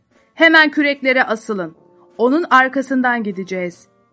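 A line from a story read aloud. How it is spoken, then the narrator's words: Shouting. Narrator (Turkish): Kaptan Ahab bağırarak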